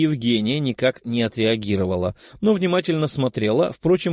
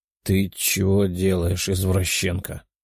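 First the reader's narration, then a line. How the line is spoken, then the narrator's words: Sleepy mumble. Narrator (Russian): пробормотал сонный парень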